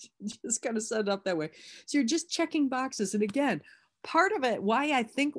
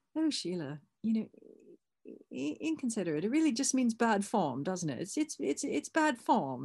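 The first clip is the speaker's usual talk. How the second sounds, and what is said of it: Dreadful put-on English accent. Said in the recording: “I'm doing a dreadful English accent”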